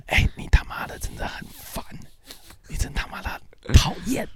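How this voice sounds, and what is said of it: Quiet, muttered swearing. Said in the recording (Chinese): “小小声的骂”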